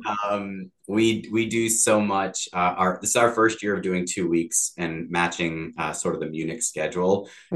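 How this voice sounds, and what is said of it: Slightly worn, hoarse voice. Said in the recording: “my voice is already a little bit shot because we're in the middle of it”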